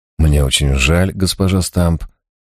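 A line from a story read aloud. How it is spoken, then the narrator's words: Soft. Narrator (Russian): мягко произнес я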